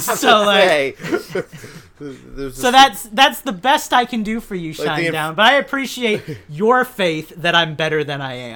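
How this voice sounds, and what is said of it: Imperfect Christopher Walken impression, Jersey-tinged. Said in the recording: “I will explain why I cannot do a Christopher Walken impression with a Christopher Walken impression. I cannot do a good Christopher Walken. Every now and then, I get the inflection right for a second or two, but it starts turning into this Jersey accent”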